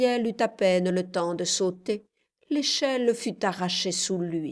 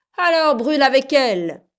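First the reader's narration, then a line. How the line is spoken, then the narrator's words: Group yelling. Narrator (French): hurlèrent les nègres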